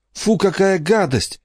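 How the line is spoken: Involuntary girl's exclamation. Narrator (Russian): невольно воскликнула девочка

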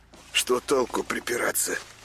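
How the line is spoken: Conciliatory mutter. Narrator (Russian): примирительно бормотал он

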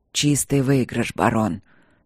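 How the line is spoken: Hoarse, grinning. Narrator (Russian): сказал Кембридж хрипло, скалясь окровавленными зубами

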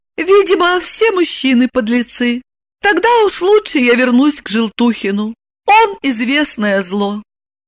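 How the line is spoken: Calm. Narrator (Russian): Она спокойно сказала

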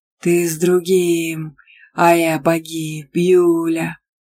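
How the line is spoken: Growl, hellish chipmunk. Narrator (Russian): прорычал адский бурундук

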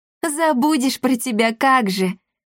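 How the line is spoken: Laughing girl. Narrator (Russian): рассмеялась девочка

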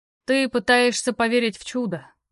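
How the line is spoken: Sighing. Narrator (Russian): вздохнул Керук

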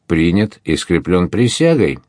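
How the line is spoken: Cheerful group shout. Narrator (Russian): весело вскричали

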